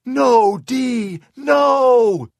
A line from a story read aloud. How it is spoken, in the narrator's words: Shirley screamed